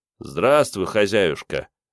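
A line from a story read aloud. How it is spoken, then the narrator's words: Cheerful greeting. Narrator (Russian): бодро приветствовал Мун рыжего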